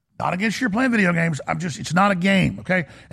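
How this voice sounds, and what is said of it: Texas accent. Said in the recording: “I don't say pillow, I say pillow. And I know that I don't say 10, I say teen ... Because I'm from Texas ... that is how I speak ... I twist words on accent sometimes”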